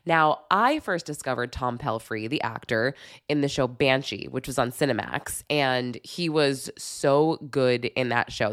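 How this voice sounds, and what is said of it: Sick, rough-sounding voice. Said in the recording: “sorry about my voice. I have oh my gosh, some kind of horrible bug right now... I just sound terrible.”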